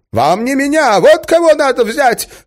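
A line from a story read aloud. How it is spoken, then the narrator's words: Shout. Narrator (Russian): крикнул он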